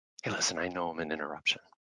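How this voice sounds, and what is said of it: Confident, smooth late-night DJ voice. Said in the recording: “the late night FM DJ voice... It's a confident, solid voice someone can trust.”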